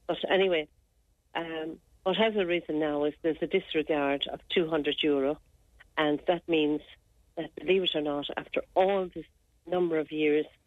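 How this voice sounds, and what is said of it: Irish Tipperary accent. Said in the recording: “I've lost the accent long ago. ... And I have a Tipperary accent now.”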